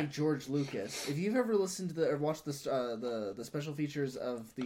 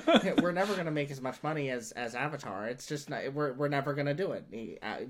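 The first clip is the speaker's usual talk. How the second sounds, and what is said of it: Imitates another person's voice. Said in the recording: “Do it in your George Lucas voice.”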